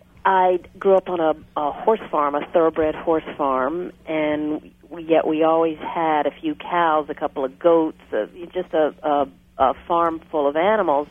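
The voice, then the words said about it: Virginia accent. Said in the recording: “I was a farm girl in Virginia. You might hear it in my accent.”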